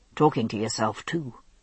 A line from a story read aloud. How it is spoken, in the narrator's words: he muttered